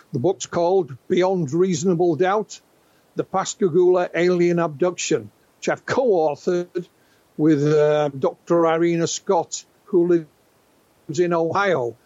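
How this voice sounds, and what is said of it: Northern English (West Yorkshire) accent. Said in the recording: “that's where the accent is ... I thought it might be Pontefract ... Bit of northern”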